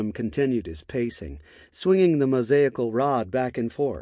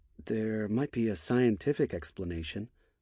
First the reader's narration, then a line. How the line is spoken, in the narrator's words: Michael said, softly